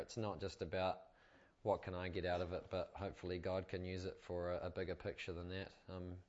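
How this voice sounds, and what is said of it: Slight American twang accent. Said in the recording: “I apologize for my slight American twang accent”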